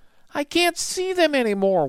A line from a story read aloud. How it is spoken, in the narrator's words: wailed Annie